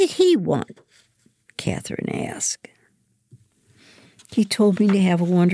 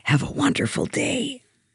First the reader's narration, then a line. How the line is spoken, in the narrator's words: whispers